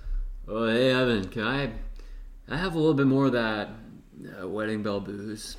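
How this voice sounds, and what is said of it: Imitates another person's voice. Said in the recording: “This is a really good impression of me”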